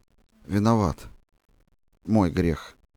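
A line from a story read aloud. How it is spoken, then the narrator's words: Muffled, hollow. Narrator (Russian): сказал глухо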